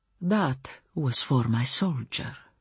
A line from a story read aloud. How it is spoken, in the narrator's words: she murmured in tones that reached no farther than my ears